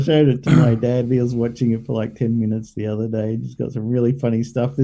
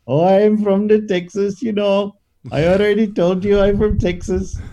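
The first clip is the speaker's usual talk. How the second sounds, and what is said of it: Imitated Indian accent. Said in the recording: “There's a guy who's got an Indian accent”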